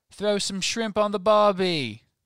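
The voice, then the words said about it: Weak put-on Australian accent. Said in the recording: “My Australian is weak. ... an Australian accent”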